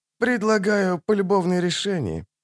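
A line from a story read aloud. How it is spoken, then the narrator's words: Soft gentle speech. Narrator (Russian): мягко проговорил Регис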